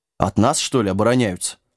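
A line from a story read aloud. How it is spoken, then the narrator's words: Snorting dog. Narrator (Russian): фыркнул пес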